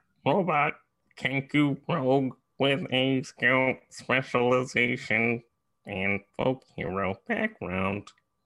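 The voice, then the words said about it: Robotic character voice. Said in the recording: “Is that your best robot impression?”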